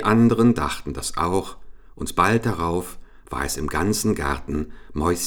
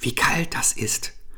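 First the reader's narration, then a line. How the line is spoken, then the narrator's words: Whispering voices. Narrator (German): flüsterten die einen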